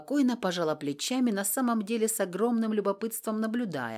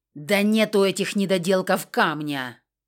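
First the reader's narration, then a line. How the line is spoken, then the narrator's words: Barking. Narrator (Russian): рявкнул Виверн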